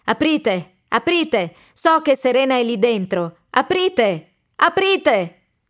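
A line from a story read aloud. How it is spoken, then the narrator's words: Repeated shouting. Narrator (Italian): Continua a gridare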